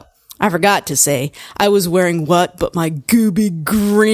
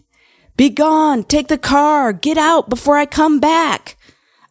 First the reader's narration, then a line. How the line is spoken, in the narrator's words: he ran out of the door, yelling